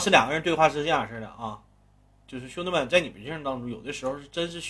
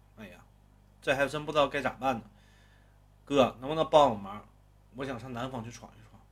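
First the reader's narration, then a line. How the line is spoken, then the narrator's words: Sighing. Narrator (Chinese): 刘勇叹了口气说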